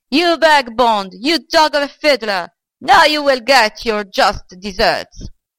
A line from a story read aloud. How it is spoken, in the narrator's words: the old man cried after him